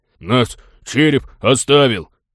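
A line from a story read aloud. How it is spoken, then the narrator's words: Fearless deep bass voice. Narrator (Russian): с бесстрашием честного человека пробасил мышонок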